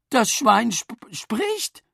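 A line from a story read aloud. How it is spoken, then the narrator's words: Stammering. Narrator (German): stammelte Mama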